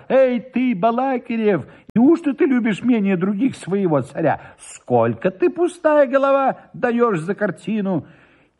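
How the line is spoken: Shout. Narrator (Russian): закричал

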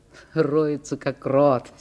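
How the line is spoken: Laughing. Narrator (Russian): смеялись те

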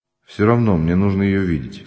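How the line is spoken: Calm. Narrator (Russian): спокойно сказал Ганин

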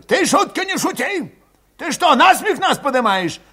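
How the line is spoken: Old man yelling close by. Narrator (Russian): Вопил у него под ухом старик Кашулин

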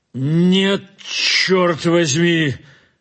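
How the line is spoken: Sudden stubborn shout. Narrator (Russian): крикнул вдруг упрямо

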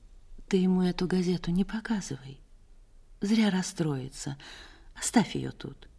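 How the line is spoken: Quiet speech. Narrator (Russian): Она тихо сказала

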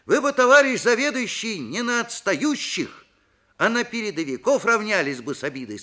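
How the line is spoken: Plain. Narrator (Russian): сказал Виктор

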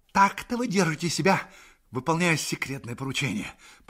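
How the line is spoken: Hissing. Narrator (Russian): прошипел он

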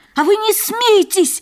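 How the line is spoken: Shouted out. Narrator (Russian): выкрикнул Вандербуль

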